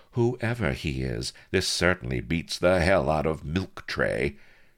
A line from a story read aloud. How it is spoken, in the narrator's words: purred the lady